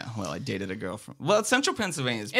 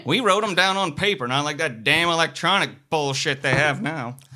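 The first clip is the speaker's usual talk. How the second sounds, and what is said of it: Southern accent. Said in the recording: “That's a great Southern accent from being from Central Pennsylvania.”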